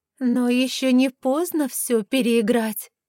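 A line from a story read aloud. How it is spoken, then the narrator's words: Insinuating, coaxing. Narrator (Russian): вкрадчиво предлагает она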